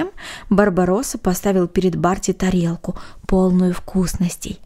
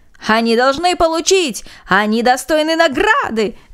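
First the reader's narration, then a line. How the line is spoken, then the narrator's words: Crowd shouting. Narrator (Russian): закричали все без исключения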